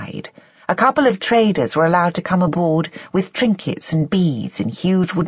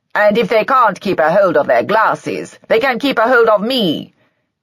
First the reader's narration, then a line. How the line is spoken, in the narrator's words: Peter had said too loudly